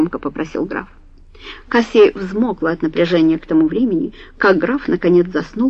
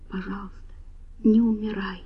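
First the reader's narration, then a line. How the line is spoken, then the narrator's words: Barely audible whisper. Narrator (Russian): чуть слышно прошептала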